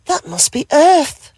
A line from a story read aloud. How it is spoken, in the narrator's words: gasped with joy